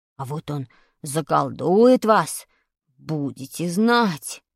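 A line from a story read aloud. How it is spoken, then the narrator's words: Weak voice. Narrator (Russian): сказал слабым голосом Вадик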